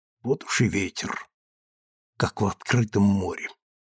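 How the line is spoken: Muttered. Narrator (Russian): Он пробормотал

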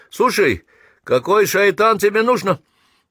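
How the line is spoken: Enraged yelling. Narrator (Russian): Кавказец взвился до небес и заорал

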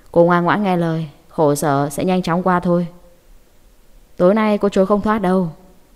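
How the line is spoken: Cold, cruel man. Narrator (Vietnamese): Người đàn ông cúi xuống lạnh lùng tàn nhẫn nói

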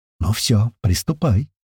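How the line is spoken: Soft whisper. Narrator (Russian): тихо прошептала девушка

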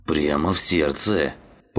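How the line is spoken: Grumbling. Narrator (Russian): проворчал он

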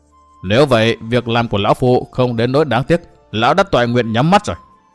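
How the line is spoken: Old man laughing loudly. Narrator (Vietnamese): Ông lão cười lớn

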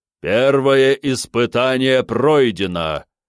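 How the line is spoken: Booming trumpet-like voice. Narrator (Russian): Гулко, подобно трубе, прогремел чей-то голос

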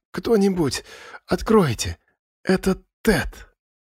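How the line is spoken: Strained, throat-cleared. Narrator (Russian): Прочистив горло, она сумела выдавить из себя

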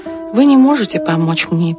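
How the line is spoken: Sad reply. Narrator (Russian): печально ответила Мариуча

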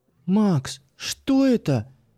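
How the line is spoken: Frightened squeak. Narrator (Russian): испуганно пискнула Юля

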